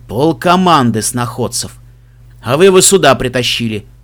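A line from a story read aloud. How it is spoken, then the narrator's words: Grumbled. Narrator (Russian): проворчал Себастьян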